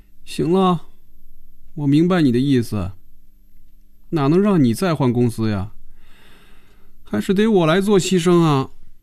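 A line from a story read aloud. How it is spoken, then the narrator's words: Dejected, subdued. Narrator (Chinese): 菲比的眼神暗淡下来，脸上也没了笑容，垂着眼皮说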